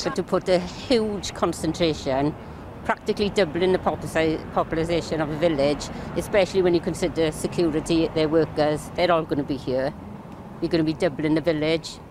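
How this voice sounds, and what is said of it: Unfamiliar strong regional UK accent. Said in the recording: “What fucking accent is that? I've never heard this. And she said populization.”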